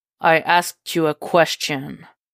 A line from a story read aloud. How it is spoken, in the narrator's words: Jason growls, low and dangerous